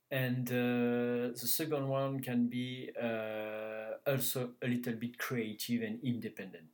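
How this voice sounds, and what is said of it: French Canadian accent. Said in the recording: “Were you in the French-speaking Canada, in Quebec? ... in Montreal ... That's why my accent. ... That's where your accent comes from.”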